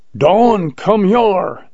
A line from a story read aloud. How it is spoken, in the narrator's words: yelled Jones